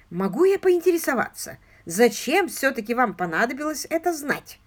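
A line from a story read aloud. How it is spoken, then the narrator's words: Plain. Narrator (Russian): спросил Мерблис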